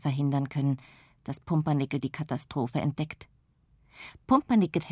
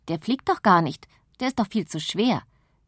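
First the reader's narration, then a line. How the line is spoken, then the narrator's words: Boy speaking. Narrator (German): hören sie einen Jungen sagen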